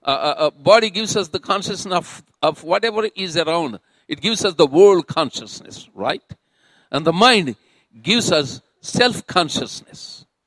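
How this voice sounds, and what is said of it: Mixed British Indian and Southern American accent. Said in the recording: “this interesting accent from the other side of the world mixed up with a little British Indian and some Southeastern American”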